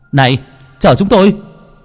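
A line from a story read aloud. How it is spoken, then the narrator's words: Loud shout fading away. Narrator (Vietnamese): Gia Huy hét lớn, nhưng giọng của anh bỗng tan biến, lọt thỏm vào thinh không lạnh ngắt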